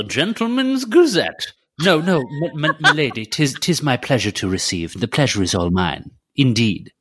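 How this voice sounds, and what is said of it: Old-fashioned gentleman character voice. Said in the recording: “do a little voice on ... do your voice like, oh, the Gentleman's Gazette”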